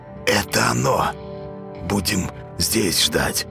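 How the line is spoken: Whisper. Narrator (Russian): прошептал Зайка

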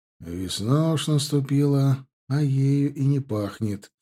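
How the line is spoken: Quiet muttering. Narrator (Russian): тихо проговорил я себе под нос

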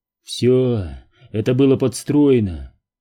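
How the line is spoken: Breathed out. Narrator (Russian): выдохнул

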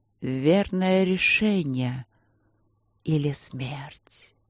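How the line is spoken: Whisper. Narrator (Russian): прошептала фигура перед ней

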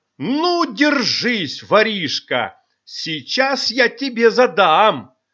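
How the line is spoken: Menacing shout. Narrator (Russian): грозно кричала

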